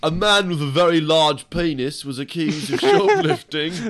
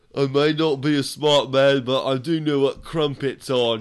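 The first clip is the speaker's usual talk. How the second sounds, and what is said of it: Forrest Gump with British accent. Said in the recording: “a British Gump”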